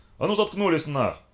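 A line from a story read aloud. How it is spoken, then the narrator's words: Barked shout. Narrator (Russian): гаркнул на них третий охранник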